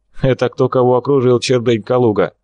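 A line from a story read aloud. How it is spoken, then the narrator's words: Mocking, insulting laugh. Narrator (Russian): Степа засмеялся как можно обиднее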